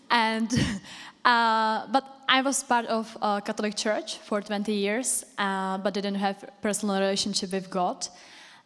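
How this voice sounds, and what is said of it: Czech accent. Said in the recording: “I came from Czech Republic, if you didn't recognize from my accent.”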